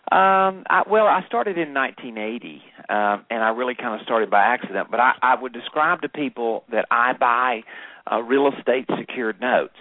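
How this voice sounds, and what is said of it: Southern American accent. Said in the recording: “you don't have an English accent ... it's pure Southern, but it's become kind of my trademark”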